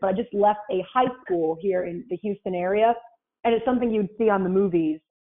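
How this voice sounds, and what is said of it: Weird Rhode Island accent. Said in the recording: “I'm from Rhode Island, so I have this like weird accent”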